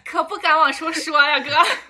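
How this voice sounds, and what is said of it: Convincing put-on regional accent. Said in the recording (Chinese): “你那个口音整挺像”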